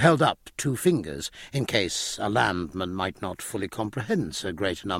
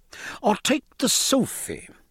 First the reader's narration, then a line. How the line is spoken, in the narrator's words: cried the master, anxious to bring his crumb of comfort